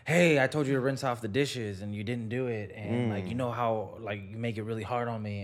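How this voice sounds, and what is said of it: Imitates another person's voice. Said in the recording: “impersonation of her”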